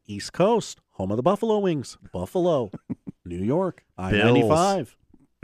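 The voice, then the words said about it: Colin Cowherd impression. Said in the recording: “my Colin Cowherd impression.”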